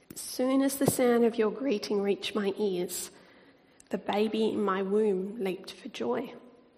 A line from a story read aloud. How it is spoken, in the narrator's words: Elizabeth said